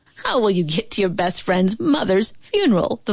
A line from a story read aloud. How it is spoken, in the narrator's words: the vulture asked, and he began to shriek and giggle